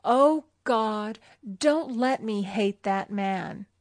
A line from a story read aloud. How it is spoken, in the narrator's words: hatred and resentment taking complete possession of her, and she cried out